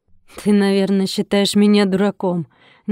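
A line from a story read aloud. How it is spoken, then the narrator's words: Sudden snort. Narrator (Russian): неожиданно хмыкнул Алмазов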